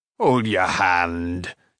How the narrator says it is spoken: chuckled Carl

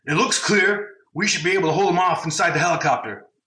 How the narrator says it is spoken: Zeb shouted

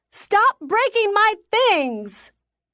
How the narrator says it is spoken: I screamed

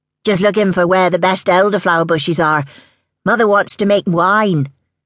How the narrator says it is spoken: called out

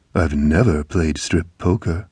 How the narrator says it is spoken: she purred

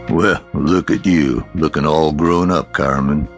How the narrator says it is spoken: he said in his husky, deep voice

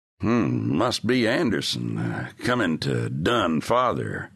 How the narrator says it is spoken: muttered young Dorn

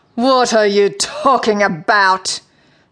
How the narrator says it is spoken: spat the Sea Queen

